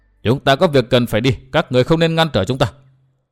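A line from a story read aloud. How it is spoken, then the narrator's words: Cold woman. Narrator (Vietnamese): bà lạnh lùng nói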